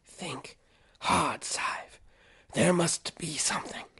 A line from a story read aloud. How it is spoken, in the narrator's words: he whispered